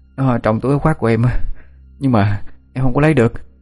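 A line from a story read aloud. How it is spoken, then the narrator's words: Breathless child panting. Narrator (Vietnamese): Thằng bé thở hổn hển như muốn đứt hơi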